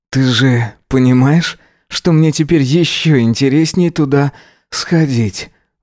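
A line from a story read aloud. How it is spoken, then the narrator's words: Sighing. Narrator (Russian): вздохнул он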